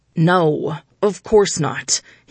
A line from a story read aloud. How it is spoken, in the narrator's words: he said through gritted teeth